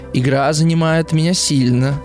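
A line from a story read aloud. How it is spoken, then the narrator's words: Plain. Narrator (Russian): сказал Герман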